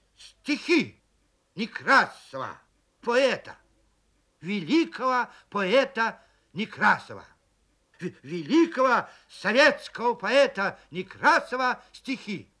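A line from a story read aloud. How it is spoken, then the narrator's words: Loud. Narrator (Russian): И громко начал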